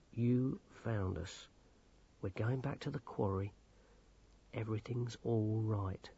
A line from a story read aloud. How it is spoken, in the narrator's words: he said soothingly